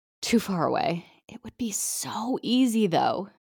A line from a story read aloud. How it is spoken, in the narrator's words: Karen stifled a laugh, then muttered